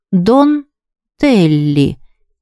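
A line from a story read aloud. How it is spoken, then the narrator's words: Slow, tasting the words. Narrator (Russian): медленно произнесла она, словно бы пробуя на зуб это странное имя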